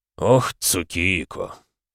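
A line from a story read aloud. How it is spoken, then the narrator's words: Sighing. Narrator (Russian): вздохнул тот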